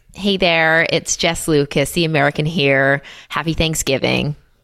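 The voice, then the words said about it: Put-on Californian American accent. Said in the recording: “do an accent ... You just doing some American speaking? ... sounded American ... It's very good, isn't it? ... Californian girl. ... It's all about the R's.”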